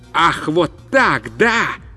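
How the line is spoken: Shouted. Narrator (Russian): закричал

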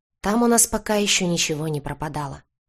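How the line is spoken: Doomed unhappy sigh. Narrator (Russian): обреченно вздохнул несчастный директор

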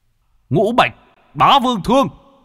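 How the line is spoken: Shout. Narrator (Vietnamese): Bạch Hổ quát

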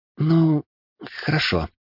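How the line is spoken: Unsure babble. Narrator (Russian): неуверенно пролепетала магичка

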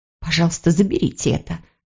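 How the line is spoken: Whisper. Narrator (Russian): прошептала она

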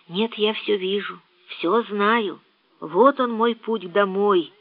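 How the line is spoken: Barely audible. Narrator (Russian): чуть слышно проговорил Сен-Клер

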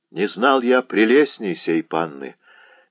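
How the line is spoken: Sad. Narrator (Russian): печально проговорил Володаевский

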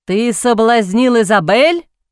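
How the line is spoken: Roaring. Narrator (Russian): взревел он

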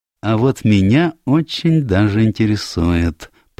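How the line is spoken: Purring. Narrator (Russian): промурлыкал Пуаро

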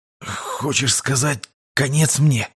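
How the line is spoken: Strained, captive. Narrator (Russian): выдавил пленник

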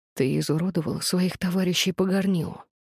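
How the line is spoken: Hoarse rasp. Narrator (Russian): прохрипел он

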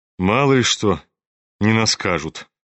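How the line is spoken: Dry. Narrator (Russian): сухо заметил Рогожин

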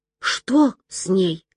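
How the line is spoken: Whisper. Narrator (Russian): прошептала Мила

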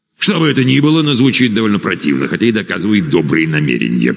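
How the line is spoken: Grumbling. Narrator (Russian): проворчал Гет

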